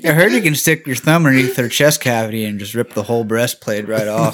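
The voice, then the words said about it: Imitates a stupid person's voice. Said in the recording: “my best impression of some stupid motherfucker ... It was spot on”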